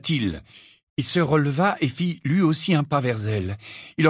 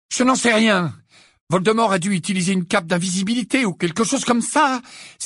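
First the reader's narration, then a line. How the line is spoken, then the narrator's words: Exclaimed. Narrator (French): s'exclama Harry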